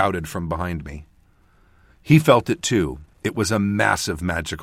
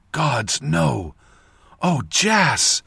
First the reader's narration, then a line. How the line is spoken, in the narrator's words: croaked through my dried, burned throat